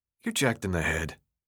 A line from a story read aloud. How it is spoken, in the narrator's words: Thomas muttered